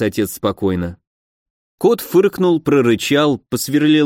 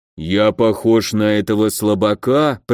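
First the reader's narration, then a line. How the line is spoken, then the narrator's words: Growled. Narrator (Russian): прорычало сновидение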